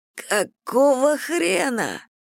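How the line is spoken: Hoarse rasp. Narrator (Russian): прохрипел Стив

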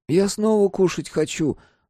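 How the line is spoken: Whining child. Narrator (Russian): захныкал брат

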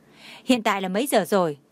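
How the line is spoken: Cold question. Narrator (Vietnamese): Khúc Uyển Đình … lạnh lùng hỏi

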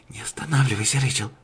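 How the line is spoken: Whisper. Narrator (Russian): прошептала Кобра Фохт

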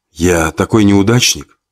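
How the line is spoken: Barely audible. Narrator (Russian): еле слышно произнес Максим

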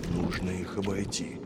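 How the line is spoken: Whisper. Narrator (Russian): прошептал Девятипалый

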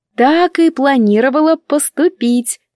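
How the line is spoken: Sly foxy reassurance. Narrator (Russian): заверяю лисьим голосочком

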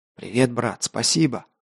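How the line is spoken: Whispered. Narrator (Russian): прошептал истребитель

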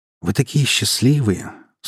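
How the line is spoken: Sigh. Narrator (Russian): снова вздохнул Май

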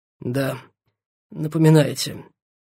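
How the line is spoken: Hoarse exhale. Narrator (Russian): хрипло выдохнул он

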